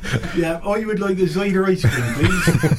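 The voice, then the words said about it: West Country English accent. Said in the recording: “And in your accent, ... We are definitely in the West Country, aren't we?”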